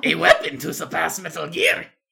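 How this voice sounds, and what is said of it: Poor imitation of another person's voice. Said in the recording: “That was an awful impression”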